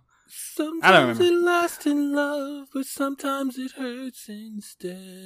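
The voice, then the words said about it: Rough singing, imitates another person's voice. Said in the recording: “that horrible Adele impression ... y'all just getting the rougher version”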